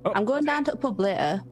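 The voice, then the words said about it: Put-on Yorkshire accent. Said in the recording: “I'm trying to get my Yorkshire accent on. ... that's a bit Barnsley, actually.”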